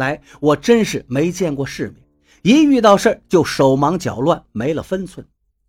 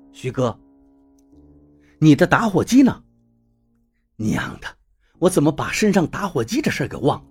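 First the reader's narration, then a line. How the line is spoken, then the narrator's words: Calm steady voice. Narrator (Chinese): 柳涛说话了，声音很沉着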